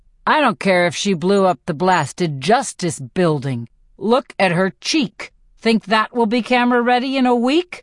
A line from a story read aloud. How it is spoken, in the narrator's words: Haymitch snarls